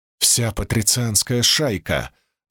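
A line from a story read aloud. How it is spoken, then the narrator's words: Excited breathless exclamation. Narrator (Russian): возбужденно выдохнул Квинт, сразу же перестав сердиться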